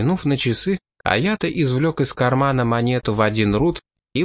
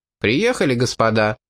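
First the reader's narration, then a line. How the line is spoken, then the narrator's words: Loud. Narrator (Russian): Пит громко произнес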